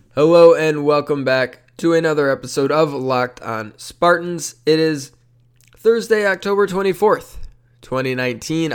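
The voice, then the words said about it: Slightly nasal, congested voice. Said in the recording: “As you can probably tell by my voice,... dealing with some allergy stuff... the slight nasal nature of my voice”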